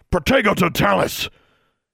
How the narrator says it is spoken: Tsotsi bellowed

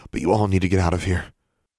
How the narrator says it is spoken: Alexandra said breathlessly

